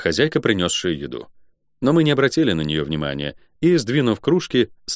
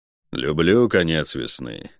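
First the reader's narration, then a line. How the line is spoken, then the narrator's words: Quiet. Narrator (Russian): негромко сказал Гонор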